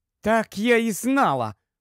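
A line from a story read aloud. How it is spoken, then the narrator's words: Exclaiming. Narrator (Ukrainian): вигукнула Сьюзен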